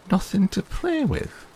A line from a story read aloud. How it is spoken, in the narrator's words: exclaimed Martha